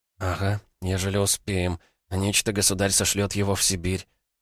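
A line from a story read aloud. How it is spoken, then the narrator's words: Pale, frightened whisper. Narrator (Russian): прошептала бледная Катя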